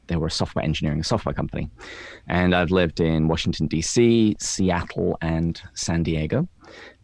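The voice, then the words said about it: English accent. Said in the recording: “as your listeners will be able to tell from my delightful accent, I am not from the United States. I was born and raised in England”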